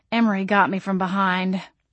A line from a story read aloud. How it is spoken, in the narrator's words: I groaned